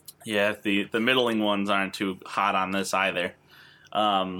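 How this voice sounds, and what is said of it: Usual voice. Nothing is said of it.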